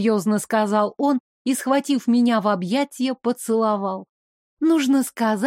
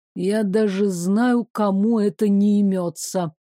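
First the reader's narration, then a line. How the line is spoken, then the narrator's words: Grumbling. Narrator (Russian): проворчал Девислав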